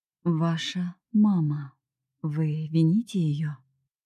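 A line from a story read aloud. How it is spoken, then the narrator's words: Slow, drawn-out. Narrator (Russian): произнес, медленно растягивая каждое слово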